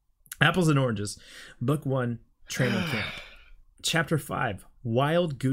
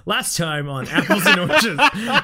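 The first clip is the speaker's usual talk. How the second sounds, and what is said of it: Announcer voice. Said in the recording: “Announcer voice.”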